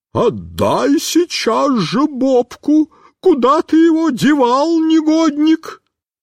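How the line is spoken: Inhuman scream, woman. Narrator (Russian): Тетенька с голой спиной стала кричать нечеловеческим голосом

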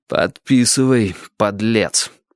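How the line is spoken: Menacing voice. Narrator (Russian): сказал я таким голосом, что он отодвинулся с ужасом

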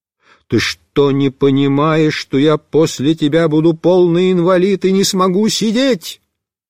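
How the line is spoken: Yelling. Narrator (Russian): Я прямо заорал

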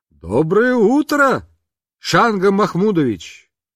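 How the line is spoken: Shout. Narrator (Russian): Папа крикнул

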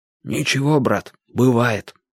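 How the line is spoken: Whispered. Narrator (Russian): шепотом сказал он

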